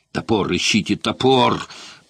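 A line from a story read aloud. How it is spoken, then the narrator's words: Furious growl. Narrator (Russian): прорычал вне себя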